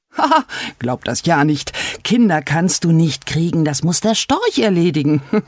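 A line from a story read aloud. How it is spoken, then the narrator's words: Laughing fox. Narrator (German): der Fuchs und lachte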